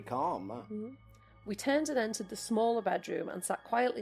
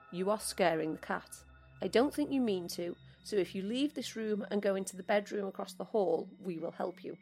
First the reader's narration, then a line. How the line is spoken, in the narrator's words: My partner spoke very calmly to the shadow, saying